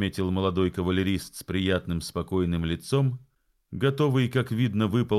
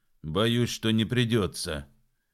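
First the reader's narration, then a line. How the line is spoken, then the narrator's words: Gloomy. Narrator (Russian): мрачно подтвердил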